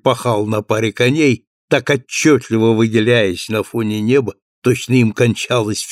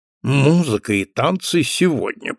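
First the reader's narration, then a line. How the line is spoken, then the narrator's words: Muttered. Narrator (Russian): пробормотал доктор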